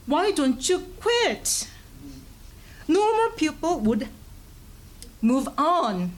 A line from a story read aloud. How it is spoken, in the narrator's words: say fiercely